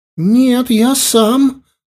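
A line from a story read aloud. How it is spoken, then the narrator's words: Exclamation. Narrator (Russian): воскликнул Дани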